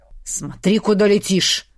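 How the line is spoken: Hissed. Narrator (Russian): прошипел

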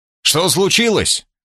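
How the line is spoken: Shouting from above. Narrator (Russian): крикнул я сверху

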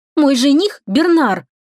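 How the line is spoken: Exclamation. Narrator (Russian): воскликнула Кейтлин

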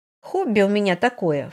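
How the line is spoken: Snorting. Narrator (Russian): фыркнула Эветта

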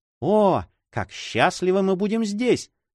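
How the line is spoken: Joyful cry. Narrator (Russian): радостно вскричала она

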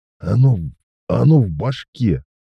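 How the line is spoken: Moaning. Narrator (Russian): простонал он

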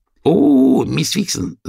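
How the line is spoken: Rat's exclamation. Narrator (Russian): воскликнула крыса

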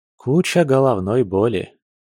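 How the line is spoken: Tired, smiling. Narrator (Russian): устало улыбнулся Егор

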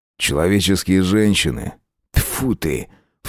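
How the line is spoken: Disdainful snort. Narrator (Russian): фыркнул Аскольд

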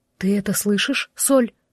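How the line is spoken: Uncertain whisper. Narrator (Russian): Девушка неуверенно прошептала

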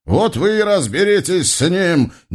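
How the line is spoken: Shout. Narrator (Russian): прокричал Бекулага

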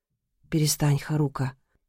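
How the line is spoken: Quiet. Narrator (Russian): тихо сказал бойфренд

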